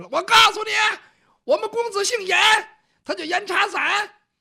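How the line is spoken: Shouting. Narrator (Chinese): 雨墨喊着了

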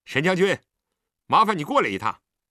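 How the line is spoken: Calling out. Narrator (Chinese): 李元芳叫了声

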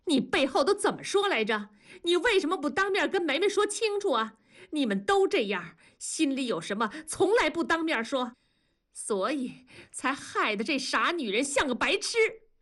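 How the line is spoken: Shouting. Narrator (Chinese): 文丽冲着同志喊

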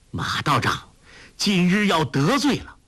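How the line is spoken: Defiant call. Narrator (Chinese): 明知不敌，却也绝计不肯就此罢休，微一沉吟，叫道

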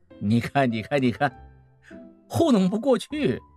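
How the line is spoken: Laughing. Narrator (Chinese): 孟梅又笑了，说

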